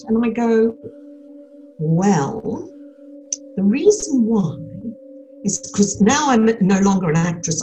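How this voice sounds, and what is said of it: Australian accent. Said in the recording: “you haven't lost your Australian accent”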